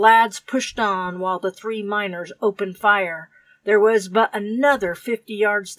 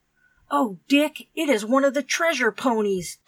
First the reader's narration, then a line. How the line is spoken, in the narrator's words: Tom exclaimed